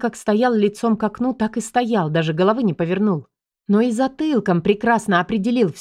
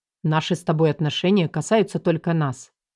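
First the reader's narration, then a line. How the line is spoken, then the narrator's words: Calm and firm. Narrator (Russian): спокойно и твердо сказал Мир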